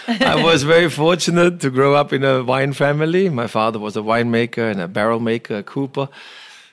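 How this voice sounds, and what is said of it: German accent. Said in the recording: “from Germany with my accent, it's clear. ... Is that a German accent?”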